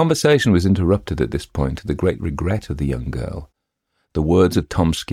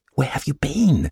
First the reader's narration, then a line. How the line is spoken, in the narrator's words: she asked in a frightened whisper